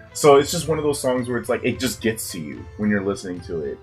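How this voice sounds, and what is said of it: Rough, sick-sounding voice. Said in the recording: “my voice is, like, so bad right now because I'm sick”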